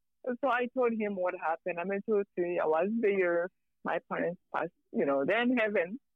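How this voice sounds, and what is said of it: Rwandan accent. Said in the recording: “where'd that accent come from? ... I'm from Rwanda.”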